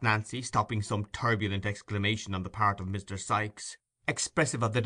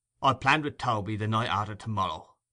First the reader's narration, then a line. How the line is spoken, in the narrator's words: rejoined Sikes in a surly voice